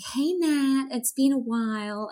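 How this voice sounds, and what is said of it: Bad put-on American accent. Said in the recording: “I'll do American accent, but really badly.”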